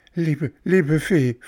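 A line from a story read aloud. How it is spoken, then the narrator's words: Pleading. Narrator (German): flehte Bengele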